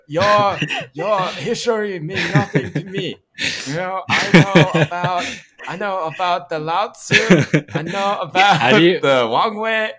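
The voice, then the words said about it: Exaggerated mock Asian accent. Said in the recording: “a variety of racist Asian accents that I can break out”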